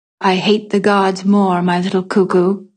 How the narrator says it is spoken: said evenly

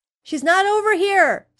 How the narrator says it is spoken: yelled

